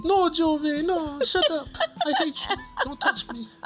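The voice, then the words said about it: Imitates another person's voice. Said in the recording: “You sound just like her. ... that's one impersonation that you can do correctly”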